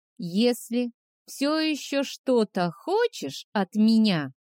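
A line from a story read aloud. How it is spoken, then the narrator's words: Slow, syllable by syllable. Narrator (Russian): медленно, почти по слогам, произнес Морох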